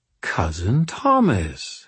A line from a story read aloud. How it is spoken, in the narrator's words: she purred